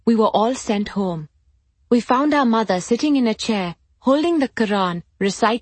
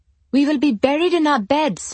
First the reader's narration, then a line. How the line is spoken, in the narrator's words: she cried